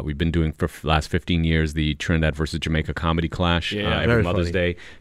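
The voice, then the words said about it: Smooth radio voice. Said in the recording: “dope voiced ... You have a very good radio voice. ... You do have a nice smooth radio voice.”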